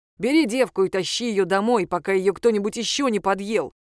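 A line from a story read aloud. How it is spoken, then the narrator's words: Angry. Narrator (Russian): сказал Томас сердито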